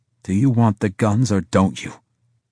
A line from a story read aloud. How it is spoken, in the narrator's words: Harris said through gritted teeth